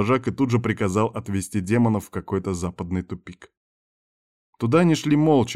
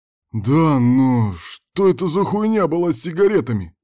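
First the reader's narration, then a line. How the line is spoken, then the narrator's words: Howling. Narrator (Russian): взвыл Кирк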